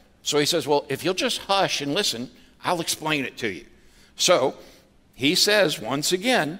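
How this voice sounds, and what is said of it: Usual voice. Nothing is said of it.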